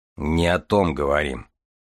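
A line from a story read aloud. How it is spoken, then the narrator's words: Deep bass voice. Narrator (Russian): пробасил Железовский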